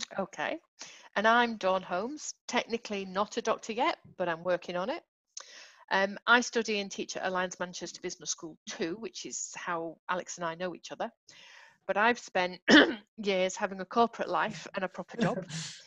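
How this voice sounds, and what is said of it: Mancunian accent. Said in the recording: “You might tell from my accent that I'm a Mancunian”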